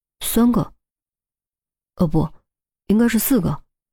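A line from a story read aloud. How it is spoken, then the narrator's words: Mumbling while counting. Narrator (Chinese): 钟离一边算还一边嘟囔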